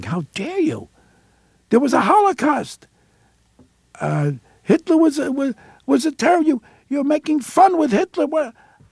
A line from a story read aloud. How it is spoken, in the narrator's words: he's screaming at me